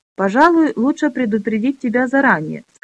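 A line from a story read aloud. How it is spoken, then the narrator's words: Suppressing laughter. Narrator (Russian): сказал, стараясь не рассмеяться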